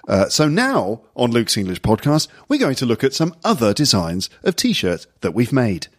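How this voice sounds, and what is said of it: Friendly informal newsreader-style voice. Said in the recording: “a bit like the news voice, but it's a lot more friendly and a bit more informal ... That's the voice.”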